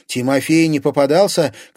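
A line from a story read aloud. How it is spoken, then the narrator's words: Shouted into ear. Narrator (Russian): крикнула Лиза прямо ей в ухо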